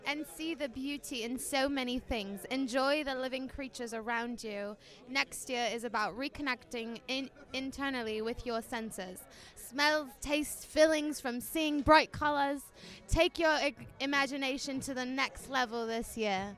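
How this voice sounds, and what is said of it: Put-on British accent. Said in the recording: “Why does it sound better in British? ... you had that British accent, bro. It takes it over the top.”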